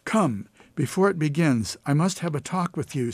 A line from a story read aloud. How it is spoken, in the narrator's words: said the widow